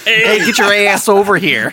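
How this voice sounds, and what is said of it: Put-on Cleveland accent. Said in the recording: “with a Cleveland accent.”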